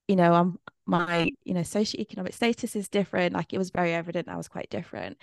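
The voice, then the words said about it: English Midlands accent. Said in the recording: “a Midlands accent”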